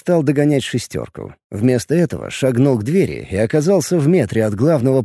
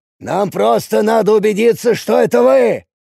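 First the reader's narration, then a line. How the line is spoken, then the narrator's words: Shouted. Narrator (Russian): выкрикнул он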